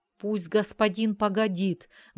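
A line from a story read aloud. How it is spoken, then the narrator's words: Muffled groan. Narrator (Russian): глухо простонал он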